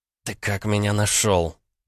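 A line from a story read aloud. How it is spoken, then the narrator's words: Quiet hiss. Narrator (Russian): негромко прошипела Алиса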